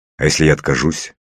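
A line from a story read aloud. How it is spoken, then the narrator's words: Angry. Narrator (Russian): злобно заговорил я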